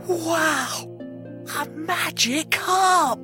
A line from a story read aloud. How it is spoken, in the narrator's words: whispered Jack